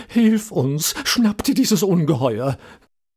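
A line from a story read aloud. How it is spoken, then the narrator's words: Group pleading. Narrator (German): flehten an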